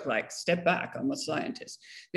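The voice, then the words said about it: Put-on guy voice. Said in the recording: “put on my guy voice”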